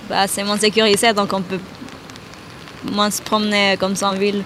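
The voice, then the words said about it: Slight Central American accent in French. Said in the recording (French): “Vous avez un petit accent ? ... je viens d'Amérique centrale.”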